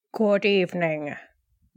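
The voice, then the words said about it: Alfred Hitchcock impression. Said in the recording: “your impersonation, which I liked. That was good. That was a good effort.”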